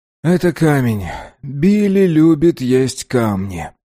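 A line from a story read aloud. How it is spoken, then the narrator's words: Sighing. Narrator (Russian): мистер Сингх вздохнул и сказал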